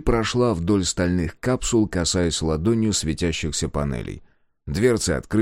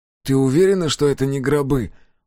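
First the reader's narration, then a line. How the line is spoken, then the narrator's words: Weary question. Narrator (Russian): устало спросил Коленки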